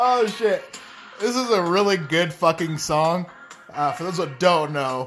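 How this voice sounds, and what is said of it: Usual voice. Nothing is said of it.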